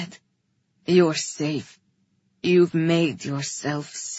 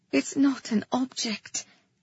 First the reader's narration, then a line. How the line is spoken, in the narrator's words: Kata said softly